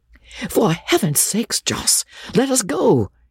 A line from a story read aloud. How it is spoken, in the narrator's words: he cried